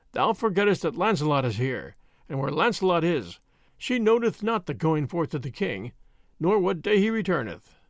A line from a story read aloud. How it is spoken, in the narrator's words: he said mournfully